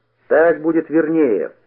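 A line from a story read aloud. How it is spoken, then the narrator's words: Shouted after someone. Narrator (Russian): крикнул ему вдогонку Никита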